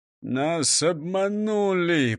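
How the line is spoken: Groan. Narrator (Russian): простонал прокурор Принцип

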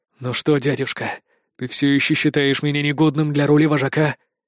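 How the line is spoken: Hoarse, wheezing. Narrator (Russian): прохрипел Итан

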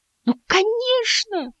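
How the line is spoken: Exclaimed. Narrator (Russian): воскликнул Мартин

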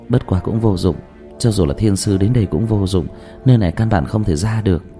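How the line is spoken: Sighing. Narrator (Vietnamese): Dương Tư Linh lại thở dài

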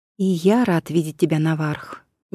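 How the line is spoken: Quiet remark. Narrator (Russian): негромко обронил Аристодем

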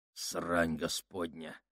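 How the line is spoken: Grumble. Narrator (Russian): проворчал он

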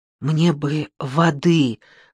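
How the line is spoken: Hoarse, strained. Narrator (Russian): хрипло выдавила Ясмин

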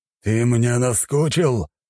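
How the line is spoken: Frustrated, powerless growl. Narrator (Russian): прорычал он, осознав свое бессилие

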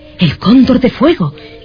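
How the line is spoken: Astonished exclamation. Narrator (Spanish): exclamó con el mayor estupor al recordar una leyenda antiquísima

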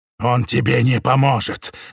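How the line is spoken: Sinister growl. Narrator (Russian): голос превратился в зловещее рычание

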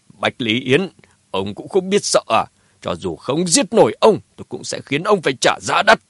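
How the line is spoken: Loud laugh. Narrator (Vietnamese): Phùng Chí Viễn cười lớn

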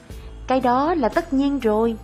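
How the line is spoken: Plain. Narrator (Vietnamese): người anh nói

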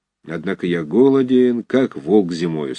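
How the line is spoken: Gloomy. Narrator (Russian): сказал он мрачно

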